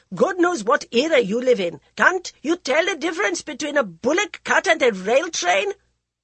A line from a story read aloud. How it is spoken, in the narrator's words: The exasperated artist shouted back